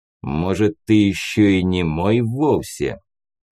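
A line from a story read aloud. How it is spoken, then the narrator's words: Growled, big man. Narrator (Russian): прорычал здоровяк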